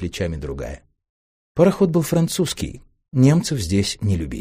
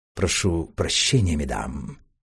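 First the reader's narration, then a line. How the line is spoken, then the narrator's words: Quiet, soft speech. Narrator (Russian): тихонько молвил помощник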